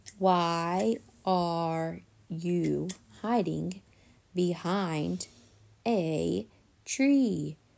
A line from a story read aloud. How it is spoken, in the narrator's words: she spoke very slowly